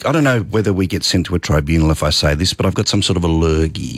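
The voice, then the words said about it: Slightly croaky voice. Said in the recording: “Apologies for the slightly croaky ... voice.”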